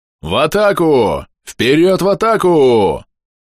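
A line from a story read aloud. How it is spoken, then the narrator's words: Roared. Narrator (Russian): проревел Друмбос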